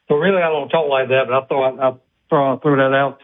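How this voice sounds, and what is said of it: Thick South Carolina accent. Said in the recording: “a big accent ... people of South Carolina ... You do know you have a thick accent, right? ... how thick is his accent?”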